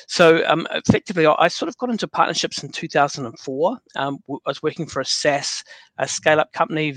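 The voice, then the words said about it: New Zealand accent. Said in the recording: “you can sort of tell by the accent, I'm kind of like, effectively grew up in New Zealand, born in London.”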